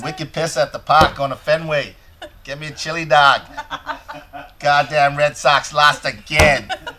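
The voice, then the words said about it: Put-on Boston accent. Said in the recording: “Did you pick up any of the Boston accent?”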